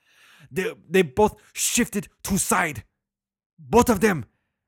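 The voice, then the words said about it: Put-on Chinese accent. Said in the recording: “I'll stop with the Chinese accent.”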